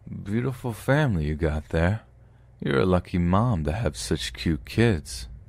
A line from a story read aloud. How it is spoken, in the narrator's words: In his slurred speech he says